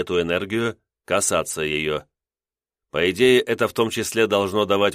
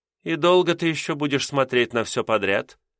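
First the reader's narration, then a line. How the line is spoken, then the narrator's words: Mildly displeased tone. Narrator (Russian): несколько недовольным тоном произнесла Асайда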